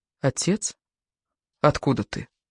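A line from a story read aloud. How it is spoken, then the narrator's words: Surprised whisper. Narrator (Russian): собралась все-таки силами и глянула в лицо того, кто нес ее на руках, и удивленно прошептала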